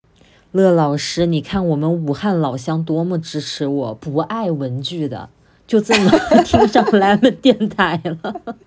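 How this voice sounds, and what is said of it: Wuhan accent. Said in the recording (Chinese): “我这个武汉口音是遮不住的”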